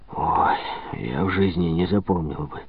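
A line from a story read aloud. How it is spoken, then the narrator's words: Glum. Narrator (Russian): уныло произнес Цакрисон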